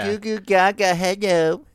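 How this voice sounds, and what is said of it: Baby voice. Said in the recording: “Do a baby voice.”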